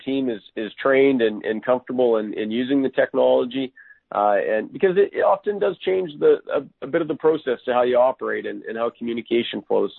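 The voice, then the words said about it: Canadian accent. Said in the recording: “talking to Canadians ... that accent, I could listen to it all day long”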